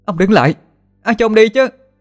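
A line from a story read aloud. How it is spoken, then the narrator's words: Loud shout. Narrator (Vietnamese): Thiên An hét to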